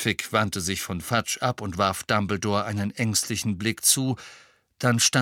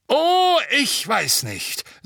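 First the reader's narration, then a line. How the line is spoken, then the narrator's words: Booming voice. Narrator (German): sagte Madame Bones mit ihrer dröhnenden Stimme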